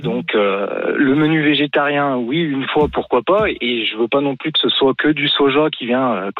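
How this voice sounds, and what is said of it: Slight regional French accent. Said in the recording (French): “votre léger accent”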